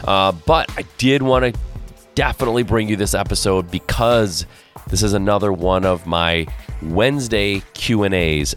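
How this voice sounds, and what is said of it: Unusually deep, sick-sounding voice. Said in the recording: “my voice is deeper, that's because it is. I am a little under the weather ... my voice has gotten crazy deep because I don't feel good”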